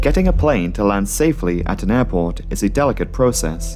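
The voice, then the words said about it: Vague European accent. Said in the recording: “He's got this really vague European accent.”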